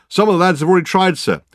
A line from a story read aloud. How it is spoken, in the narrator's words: the constable replied anxiously